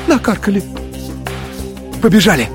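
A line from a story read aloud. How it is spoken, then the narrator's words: Frightened breathless exhale. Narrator (Russian): Испуганно выдохнул Игорь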